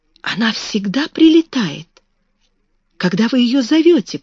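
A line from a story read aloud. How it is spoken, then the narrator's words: Near-whispered question. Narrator (Russian): почти шепотом спросила Мэри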